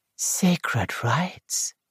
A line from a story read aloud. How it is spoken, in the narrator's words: murmured Diana Ashley